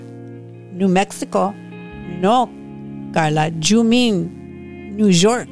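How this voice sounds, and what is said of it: Cute accented voice. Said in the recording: “Mama responds in her cute accent.”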